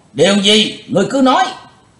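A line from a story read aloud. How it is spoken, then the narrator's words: Crowd shouting in unison. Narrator (Vietnamese): Cả tràng đồng quát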